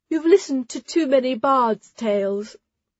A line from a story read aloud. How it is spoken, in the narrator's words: Ara yawned